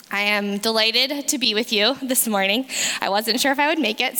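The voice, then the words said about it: Hoarse voice. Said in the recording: “I'm recovering over some sickness ... my voice may be a little more hoarse,”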